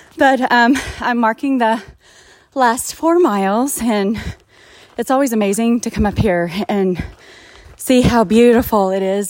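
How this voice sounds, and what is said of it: Out of breath, panting speech. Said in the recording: “that's why I'm out of breath”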